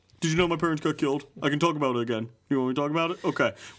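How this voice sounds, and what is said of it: Batman character voice impression. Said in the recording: “Is this your Pete Holmes doing Batman impersonation or something? ... I didn't say it was good”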